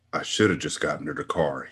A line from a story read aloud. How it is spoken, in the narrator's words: he muttered